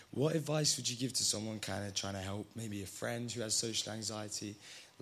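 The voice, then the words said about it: Hoarse, strained voice. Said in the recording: “my voice is kind of gone”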